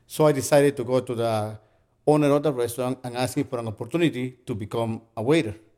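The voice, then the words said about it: Noticeable foreign accent. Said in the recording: “You have an accent... my accent is sexy... your accent might be sexy, but it might get on the way of you communicating with the customers”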